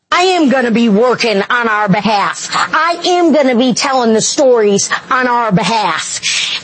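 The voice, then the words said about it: Michigan accent. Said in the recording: “she's from Michigan ... you got to hear the accent”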